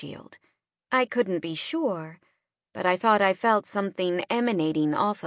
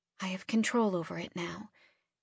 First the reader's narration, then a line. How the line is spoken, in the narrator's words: I said softly